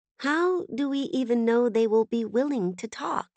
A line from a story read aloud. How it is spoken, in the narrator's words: Brevity asked hesitantly